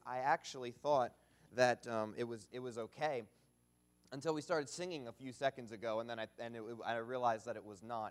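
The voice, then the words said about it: Strained, hoarse voice. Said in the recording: “apologize for my voice... I just blew my voice out... if it does fail on me”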